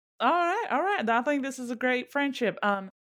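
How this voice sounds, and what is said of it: Speaks in a put-on accent. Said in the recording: “Don't mind that I've changed my accent.”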